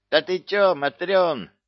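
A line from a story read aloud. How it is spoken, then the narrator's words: Yelling from a distance. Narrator (Russian): орала ей соседка с противоположной стороны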